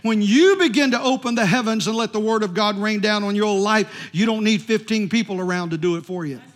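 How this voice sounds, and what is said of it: Loud, yelling preaching voice. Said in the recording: “I'm really preaching today, aren't I? ... I'm yelling.”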